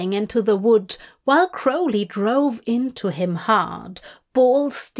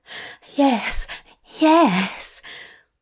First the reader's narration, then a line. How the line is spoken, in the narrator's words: Aziraphale panted